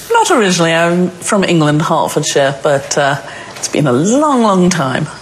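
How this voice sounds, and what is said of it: English accent. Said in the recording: “Your accent indicates that you are not from Tonawanda originally ... I keep the accent for marketing purposes”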